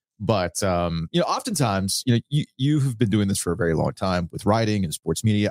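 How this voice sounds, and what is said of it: Slightly hoarse voice. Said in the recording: “my voice sounds a little hoarse”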